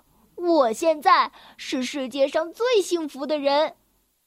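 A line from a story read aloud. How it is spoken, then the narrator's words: Loud proclamation. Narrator (Chinese): 我大声的宣告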